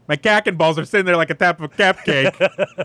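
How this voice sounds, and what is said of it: Put-on Chicago accent. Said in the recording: “Say that like a Chicago accent.”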